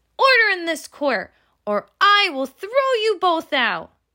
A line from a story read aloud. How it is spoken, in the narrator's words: shouted David